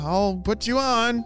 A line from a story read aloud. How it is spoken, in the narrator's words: she yelled through the fabric